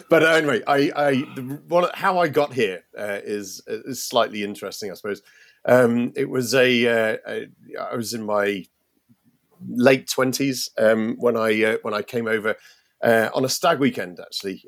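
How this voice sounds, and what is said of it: British accent. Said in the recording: “I obviously from Britain, and you can tell that from my accent, I'm sure.”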